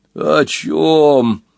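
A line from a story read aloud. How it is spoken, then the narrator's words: Groaning rhinoceros. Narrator (Russian): простонал носорог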